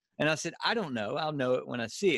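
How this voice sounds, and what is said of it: Southern Louisiana Cajun accent. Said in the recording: “accent's awesome ... I've got like a, a, uh, a, a, Cajun redneck accent”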